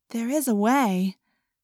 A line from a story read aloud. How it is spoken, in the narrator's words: Cassie said hesitantly